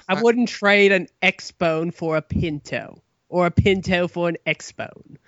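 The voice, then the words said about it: Put-on accent drifting toward cockney. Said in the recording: “I think your accent shifted a little bit ... no more impressions ... Got a little cockney.”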